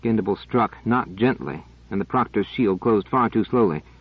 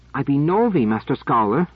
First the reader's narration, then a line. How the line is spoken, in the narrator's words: said in what was almost a gasp